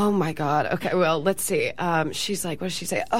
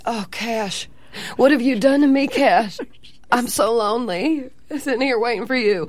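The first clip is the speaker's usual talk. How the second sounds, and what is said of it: Deep Southern Texas woman accent. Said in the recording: “a really deep Southern Texas woman ... give us some of that accent”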